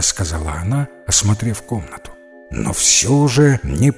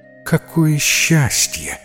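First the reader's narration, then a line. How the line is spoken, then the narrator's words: Sighed with relief. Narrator (Russian): вздохнула с облегчением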